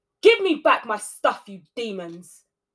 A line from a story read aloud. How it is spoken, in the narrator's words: she shouted